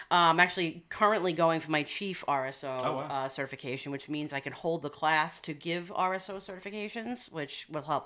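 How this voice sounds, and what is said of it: Long Island accent. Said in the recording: “Long Island ... you can tell where we are ... obviously by my accent.”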